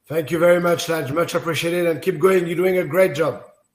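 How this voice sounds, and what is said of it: Exotic-sounding foreign accent. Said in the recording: “I could listen to that accent any day... Very exotic... with their accents”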